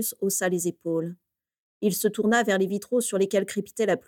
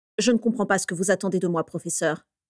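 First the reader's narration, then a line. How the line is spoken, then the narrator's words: Curt, dry. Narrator (French): dit sèchement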